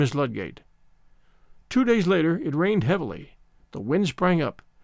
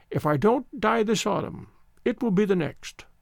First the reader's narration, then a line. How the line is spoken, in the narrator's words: the old voice quavered